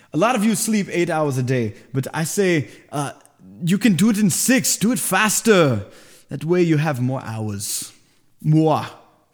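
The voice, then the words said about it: Bad Arnold Schwarzenegger impression. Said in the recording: “bad Arnold Schwarzenegger impersonation”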